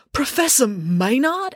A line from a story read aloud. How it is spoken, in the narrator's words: exclaimed Joe